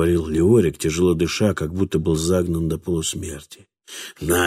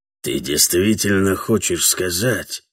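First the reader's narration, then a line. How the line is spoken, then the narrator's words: Hoarse whisper. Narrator (Russian): хриплым шепотом спросил Леорик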